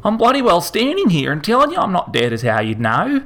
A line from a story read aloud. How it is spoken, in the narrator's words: Harold say indignantly